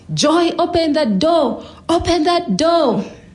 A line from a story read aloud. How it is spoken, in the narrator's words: his brothers joined in, screaming